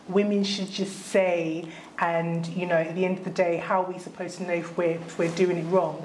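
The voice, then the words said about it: Put-on accent, whingey tone. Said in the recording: “Why did you put the accent? Why did you put an accent on when you did that? ... you put on this whole.”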